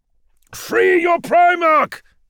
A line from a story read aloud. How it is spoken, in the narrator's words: Gilliman shouted